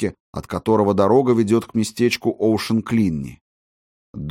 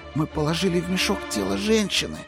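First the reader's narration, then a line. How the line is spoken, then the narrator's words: Whispered. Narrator (Russian): прошептал Фетц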